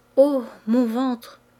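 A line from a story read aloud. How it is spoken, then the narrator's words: Stammering. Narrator (French): Elle balbutia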